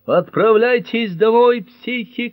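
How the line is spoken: Shouting. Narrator (Russian): кричал он

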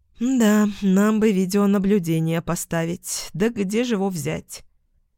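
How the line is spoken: Snorted. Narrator (Russian): Яспер хмыкнул

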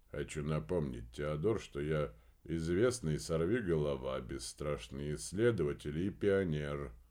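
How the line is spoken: Bored voice. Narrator (Russian): скучным голосом произнес Помпилио

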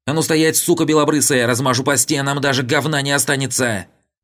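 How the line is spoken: Hysterical high falsetto scream. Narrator (Russian): стройный силуэт, истерично завопивший тонким фальцетом

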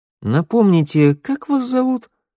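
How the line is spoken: Insinuating, ingratiating question. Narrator (Russian): вкрадчиво поинтересовался я

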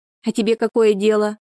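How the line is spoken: Snapping retort. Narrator (Russian): огрызнулась Шура

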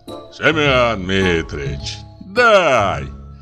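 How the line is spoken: Deep, eagerly pleading voice. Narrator (Russian): говорит басом Игнат Рябов, и в голосе его слышится страстное желание получить просимое

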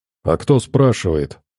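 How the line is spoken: Calm reply. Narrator (Russian): спокойно ответил я

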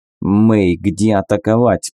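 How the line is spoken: Strained hiss. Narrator (Russian): прошипел я, с трудом сдерживаясь

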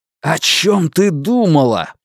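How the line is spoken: Shouting in face. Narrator (Russian): прокричал он ей в лицо

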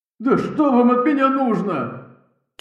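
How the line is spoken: Terrified near-sobbing shout. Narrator (Russian): Чуть ли не рыдая от ужаса, прокричал он

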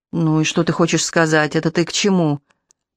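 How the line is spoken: Through clenched teeth. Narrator (Russian): Олег силой сжал челюсти и говорил почти сквозь зубы

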